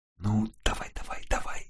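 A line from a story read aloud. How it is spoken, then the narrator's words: Whispered. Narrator (Russian): шептала она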